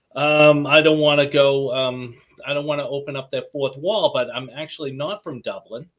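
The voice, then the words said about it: Boston accent. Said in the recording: “I don't know if you picked up the Boston accent”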